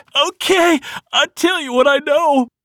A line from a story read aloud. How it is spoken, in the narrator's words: started sobbing